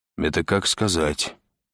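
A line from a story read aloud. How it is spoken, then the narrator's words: Gloomy. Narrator (Russian): мрачно проговорил Андрей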